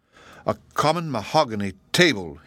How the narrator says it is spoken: he growled

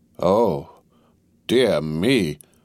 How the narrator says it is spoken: cried Mr

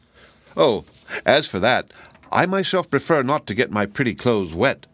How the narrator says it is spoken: laughed the Rainbow's daughter

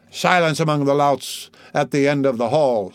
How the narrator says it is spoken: said the bailiff sharply

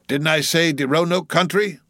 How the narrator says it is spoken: he cried sharply

